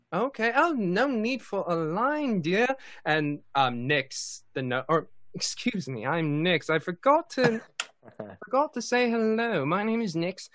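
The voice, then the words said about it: Wandering inconsistent put-on accent. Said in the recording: “accent is going everywhere, isn't it?”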